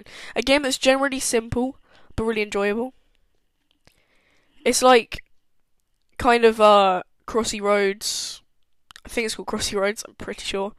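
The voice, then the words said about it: Hoarse, fading voice. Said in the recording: “my voice is going”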